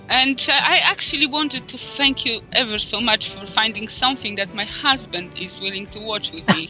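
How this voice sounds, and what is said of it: Polish accent in English. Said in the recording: “I'm from Poland. I live in UK, but originally from Poland. So my obnoxious accent”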